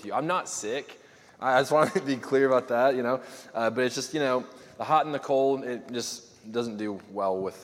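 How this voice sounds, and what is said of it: Hoarse, fading voice. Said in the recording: “My voice is escaping every minute, it seems, so I might not have a voice by the end of this ... probably sounding pretty gross”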